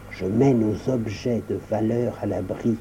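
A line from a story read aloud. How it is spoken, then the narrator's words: Low voice. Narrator (French): répondit John à voix basse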